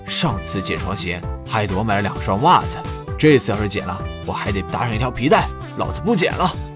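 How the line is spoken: Angry old man muttering. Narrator (Chinese): 胡大爷愤愤地嘀咕道

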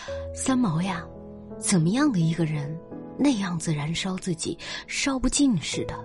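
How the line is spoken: Marveling. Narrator (Chinese): 天心惊叹道

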